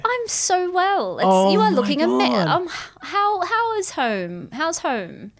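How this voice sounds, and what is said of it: Put-on British accent. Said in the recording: “What's going on with the... With the accent... Oh, my accent... my dad lived in Britain when he was younger”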